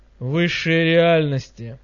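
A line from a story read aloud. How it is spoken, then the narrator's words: Displeased grumble. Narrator (Russian): недовольно пробурчало сияние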